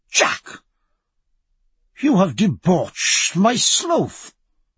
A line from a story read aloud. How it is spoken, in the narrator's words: cried